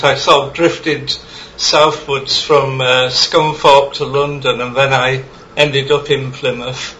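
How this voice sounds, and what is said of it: Northern English accent. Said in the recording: “Devon accent ... I've got more of an up north accent.”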